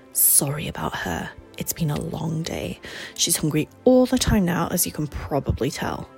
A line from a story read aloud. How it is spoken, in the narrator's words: stage whispered